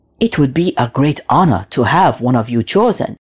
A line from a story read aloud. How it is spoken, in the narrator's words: he said